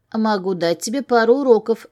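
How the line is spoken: With a chuckle. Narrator (Russian): хмыкнул

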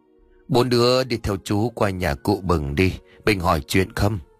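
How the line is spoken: Old man sighing. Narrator (Vietnamese): Ông Trường thở dài nói

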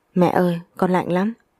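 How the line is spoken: Clear, slightly trembling voice. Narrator (Vietnamese): một giọng nói trong trẻo nhưng có phần run rẩy

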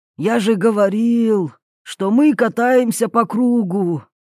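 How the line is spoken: Crushed, despairing voice. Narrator (Russian): убитым голосом произнес Юрий

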